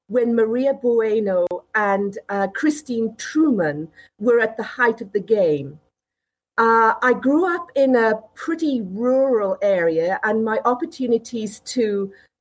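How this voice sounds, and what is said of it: British accent. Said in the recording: “As you can probably hear from my accent, I'm originally from the UK”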